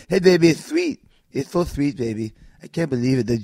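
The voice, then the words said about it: Imitates another person's voice. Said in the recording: “do her best Dusty Rhodes impression ... Almost sounds like Hooven Tugaro when I do it”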